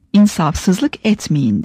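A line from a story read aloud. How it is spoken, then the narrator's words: Plain. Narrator (Turkish): dedi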